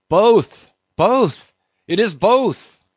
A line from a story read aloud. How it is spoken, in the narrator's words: cried Daggoo again with a joyful shout